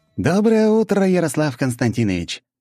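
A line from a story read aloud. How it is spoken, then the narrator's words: Joyful. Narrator (Russian): радостно произнес Антипов-младший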